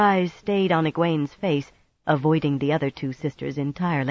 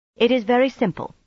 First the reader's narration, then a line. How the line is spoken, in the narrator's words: she said in a firm voice